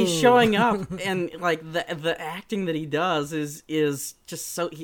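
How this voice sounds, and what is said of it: Usual voice. Nothing is said of it.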